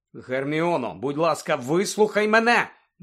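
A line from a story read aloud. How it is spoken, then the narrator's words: Exclaiming. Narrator (Ukrainian): вигукнув Люпен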